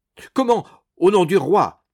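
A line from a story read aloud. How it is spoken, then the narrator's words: Exclaiming. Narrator (French): s'exclamait M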